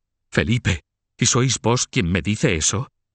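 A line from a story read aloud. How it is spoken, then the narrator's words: Distraught exclamation. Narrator (Spanish): exclamó Carlos de la Marche levantándose con el rostro descompuesto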